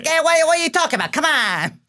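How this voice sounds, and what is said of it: Exaggerated New York accent. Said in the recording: “a standard like improv show version of a New York accent”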